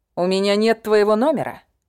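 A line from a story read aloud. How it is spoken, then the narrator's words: Grunted, male. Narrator (Russian): хмыкнул он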